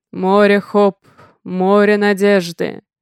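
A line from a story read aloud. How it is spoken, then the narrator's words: Deep bass voice. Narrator (Russian): заговорил басом самый высокий из мужчин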